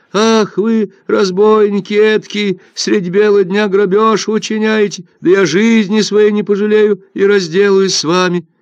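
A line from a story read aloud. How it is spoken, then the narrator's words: Loud wailing fisherwoman. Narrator (Russian): Рыбачка громко завопила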